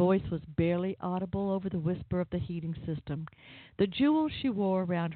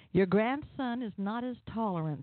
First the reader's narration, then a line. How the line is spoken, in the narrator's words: Scuttlebutt said